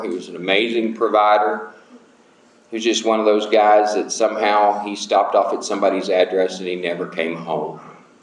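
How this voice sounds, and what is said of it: Strong regional accent. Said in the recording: “If you think this accent is bad”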